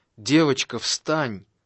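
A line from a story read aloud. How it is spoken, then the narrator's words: Exclaiming. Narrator (Russian): воскликнул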